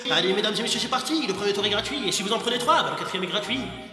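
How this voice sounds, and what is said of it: Fairground barker voice, Gypsy accent. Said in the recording (French): “comme si on était un forain ... cet accent de gitan”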